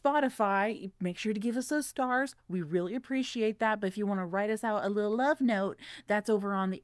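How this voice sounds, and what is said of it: Usual voice. Nothing is said of it.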